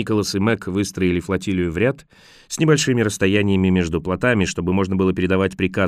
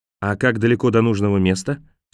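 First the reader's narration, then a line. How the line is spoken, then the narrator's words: Plain. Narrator (Russian): спросила она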